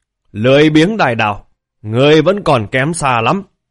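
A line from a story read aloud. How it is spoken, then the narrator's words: Roaring laughter. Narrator (Vietnamese): Hỗn độn ma viên thì cười ha hả gầm rú nói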